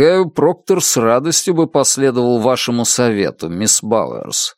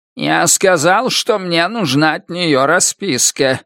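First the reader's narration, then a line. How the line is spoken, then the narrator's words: Creaky voice. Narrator (Russian): скрипучим голосом заговорил он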